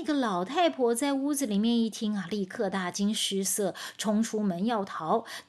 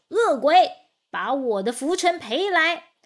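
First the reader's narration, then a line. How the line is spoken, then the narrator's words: Loud shouting. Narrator (Chinese): 道士正在院子中央高声喊着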